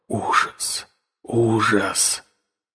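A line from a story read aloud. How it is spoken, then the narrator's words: Whisper. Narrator (Russian): Я снова слышал шепот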